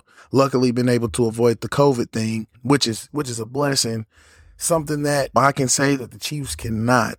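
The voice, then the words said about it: Hoarse, partly lost voice. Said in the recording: “if you're hearing in my voice a little bit, I've lost my voice a bit”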